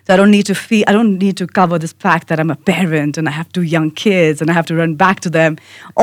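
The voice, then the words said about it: Indian-accented English. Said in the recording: “I have an accent, I'm from India”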